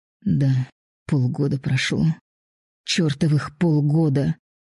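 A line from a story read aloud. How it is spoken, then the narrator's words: Angry mutter. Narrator (Russian): Зло пробормотала она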